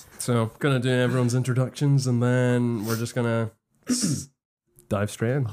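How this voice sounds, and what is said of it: Polished podcast-host voice. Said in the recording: “podcast voice is on.”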